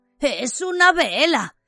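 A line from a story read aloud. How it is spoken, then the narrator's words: Hoarse voice. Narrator (Spanish): le dijo a Harry con voz ronca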